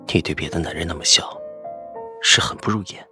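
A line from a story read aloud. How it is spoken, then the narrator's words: Low voice, close. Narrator (Chinese): 他在我耳边沉声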